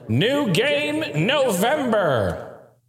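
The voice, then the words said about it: Reverb-heavy derpy superhero voice. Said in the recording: “Should I get some of my reverb? ... I sound just like a derpy superhero there”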